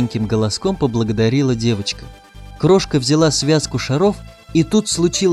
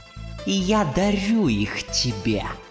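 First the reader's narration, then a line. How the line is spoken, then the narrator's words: Gloating hiss. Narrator (Russian): Прошипела злорадно Манефа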